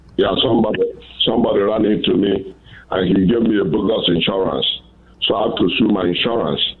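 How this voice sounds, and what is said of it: Nigerian English accent. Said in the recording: “I love that accent. Where are you from? ... I'm from Nigeria, West Africa.”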